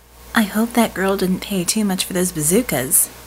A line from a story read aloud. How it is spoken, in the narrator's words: she said dryly in their ears